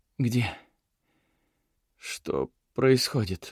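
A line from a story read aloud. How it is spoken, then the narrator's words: Puppy-like whimper. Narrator (Russian): голос Уиллы прозвучал, как щенячье поскуливание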